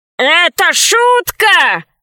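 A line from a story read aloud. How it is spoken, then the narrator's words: Shouting in reply. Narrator (Russian): в ответ закричал добрец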